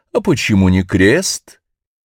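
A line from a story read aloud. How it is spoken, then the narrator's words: Laughing. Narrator (Russian): Бог рассмеялся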